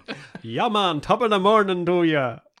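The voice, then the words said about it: Put-on Jamaican-Irish accent. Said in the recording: “your Irish accent... My Jamaican Irish”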